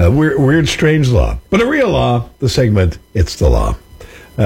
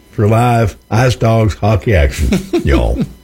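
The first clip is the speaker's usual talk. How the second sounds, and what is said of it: Put-on country twang accent. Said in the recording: “Throwing the accent there. ... Country twang. ... That's my country hick voice there.”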